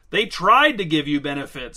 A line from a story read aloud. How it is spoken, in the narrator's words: shouted Angelo